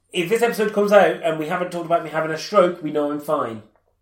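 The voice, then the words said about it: Congested, blocked-nose voice. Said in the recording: “I'm full of cold this week, though. ... I feel like half my face is bunged up. Like, this right-hand side of my face. It's on my right nostril”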